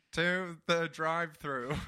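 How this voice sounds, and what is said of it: Silly alien character voice. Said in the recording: “Is that your alien voice? Do your alien voice.”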